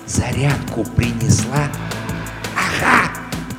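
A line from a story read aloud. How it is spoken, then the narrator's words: Soundless whisper. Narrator (Russian): шепнул одними губами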